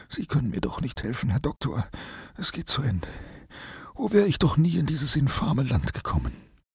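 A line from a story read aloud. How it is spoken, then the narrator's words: Tired voice. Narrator (German): mit müder Stimme sprach er dann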